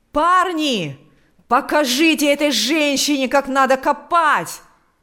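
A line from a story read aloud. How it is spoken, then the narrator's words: Male shouting. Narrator (Russian): кричал он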